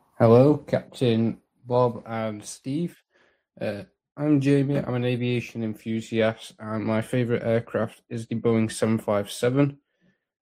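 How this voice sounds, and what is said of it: British accent. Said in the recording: “I think ... is from the UK based on his accent.”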